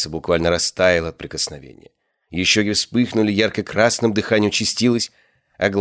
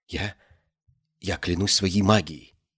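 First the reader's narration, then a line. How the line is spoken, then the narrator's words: Trembling whisper. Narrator (Russian): прошептала она дрожащим голосом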